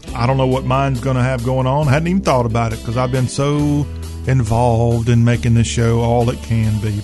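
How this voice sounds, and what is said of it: Southern accent. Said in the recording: “talk with a Southern accent”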